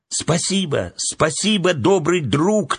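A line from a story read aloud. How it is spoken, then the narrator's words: Children shouting after. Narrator (Russian): только и успели крикнуть вслед ему дети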